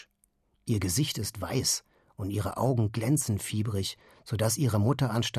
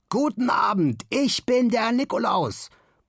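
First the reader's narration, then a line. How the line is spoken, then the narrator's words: Confident roaring. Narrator (German): brüllt Simon siegessicher in die Runde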